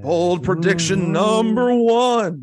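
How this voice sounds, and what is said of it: Spooky ghostly mock-prophet voice. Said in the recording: “my best Nostradamus impression. I'm terrible at acting ... Why do I sound like a ghost?”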